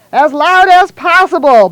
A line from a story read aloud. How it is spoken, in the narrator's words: bellowed the doctor